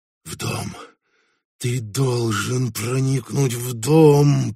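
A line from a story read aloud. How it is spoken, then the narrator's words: Hissed to himself. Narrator (Russian): прошипел он себе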